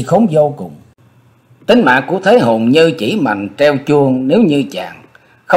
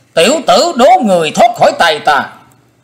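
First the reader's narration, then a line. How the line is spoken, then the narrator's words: Shouting. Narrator (Vietnamese): Đồng trong tiếng thét đó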